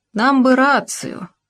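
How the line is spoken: Heavy sigh. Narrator (Russian): Пригода тяжело вздохнул

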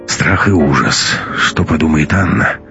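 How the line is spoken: Sighing. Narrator (Russian): вздохнул Матвей

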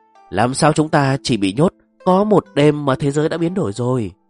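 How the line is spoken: Dazed muttering. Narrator (Vietnamese): Trương Thán ngẩn người lẩm bẩm

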